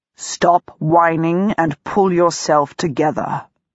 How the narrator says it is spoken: part of me warns grimly

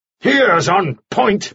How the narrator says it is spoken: shouted

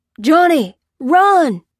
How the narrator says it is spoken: cried the farmer

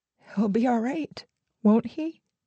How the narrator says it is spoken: she asked, her voice unraveling

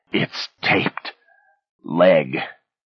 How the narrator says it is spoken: he mumbled hoarsely

